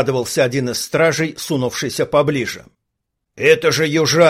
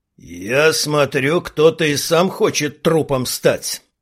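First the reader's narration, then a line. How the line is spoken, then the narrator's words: Through gritted teeth. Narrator (Russian): процедил Брок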